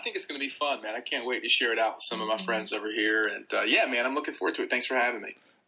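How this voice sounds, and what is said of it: American Southern accent. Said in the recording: “your British accent merging with my like Southern accent”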